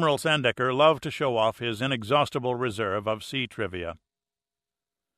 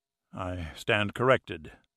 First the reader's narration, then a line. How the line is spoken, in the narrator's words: Pitt sighed